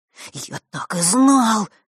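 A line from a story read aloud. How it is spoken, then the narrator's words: Breathless boy. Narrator (Russian): выдохнул мальчик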